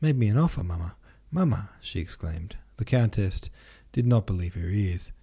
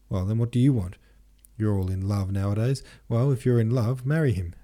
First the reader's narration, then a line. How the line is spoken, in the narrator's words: said the Countess with a laugh of annoyance